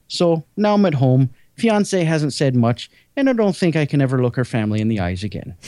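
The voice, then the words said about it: Bad put-on Irish accent. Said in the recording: “That was probably the worst Irish accent.”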